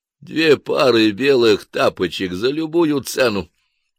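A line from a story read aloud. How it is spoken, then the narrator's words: Hoarse, polite request. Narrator (Russian): хрипло, но вежливо попросили манекены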